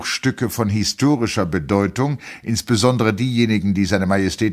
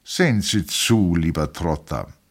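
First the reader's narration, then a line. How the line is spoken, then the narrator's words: Plain. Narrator (German): sagte der Kaiser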